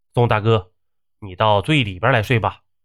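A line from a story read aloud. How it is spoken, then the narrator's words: Cold voice. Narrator (Chinese): 宋云飞也冷声说道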